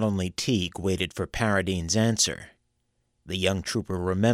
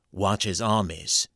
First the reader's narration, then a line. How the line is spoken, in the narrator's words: pronounced Paradine, as stiffly as Leonidas Polk himself